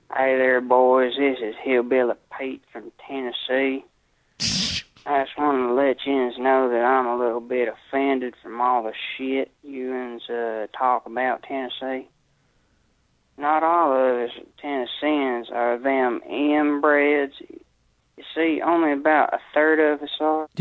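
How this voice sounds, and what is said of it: Exaggerated Southern hillbilly accent. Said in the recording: “overemphasizing his accent ... Southern folk type voices”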